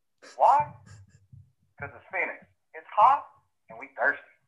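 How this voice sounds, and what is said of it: Heavy Southern accent, hard to understand. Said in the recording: “that accent was so bad. ... or just like so southern. ... That one was tough to hear.”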